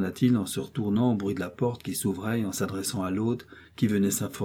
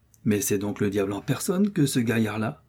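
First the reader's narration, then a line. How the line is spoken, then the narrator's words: Stranger exclaiming. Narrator (French): s'écria l'inconnu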